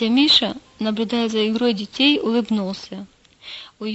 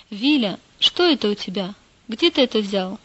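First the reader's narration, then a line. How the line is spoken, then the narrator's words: Stern mother's question. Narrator (Russian): спросила строго мама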